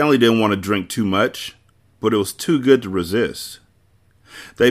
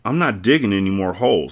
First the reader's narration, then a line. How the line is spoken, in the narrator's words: said Zero